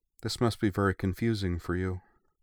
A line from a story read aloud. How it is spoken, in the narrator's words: said Iona, her voice flat but not unkind